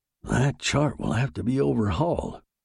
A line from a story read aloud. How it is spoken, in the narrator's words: murmured the captain